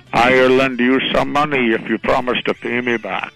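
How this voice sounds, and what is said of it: Put-on Irish accent. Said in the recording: “in an Irish accent”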